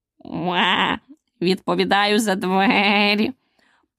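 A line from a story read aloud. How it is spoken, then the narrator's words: Weak hoarse croak. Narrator (Ukrainian): Прохрипів він так кволо, що Аліса ледь почула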